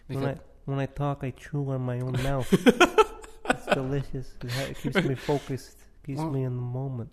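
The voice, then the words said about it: Marlon Brando Brooklyn accent impression. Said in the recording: “a weird Marlon Brando voice ... Marlon Brando's Brooklyn accent type of...”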